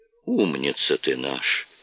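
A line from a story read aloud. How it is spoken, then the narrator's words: Sighing. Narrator (Russian): вздохнул Олстон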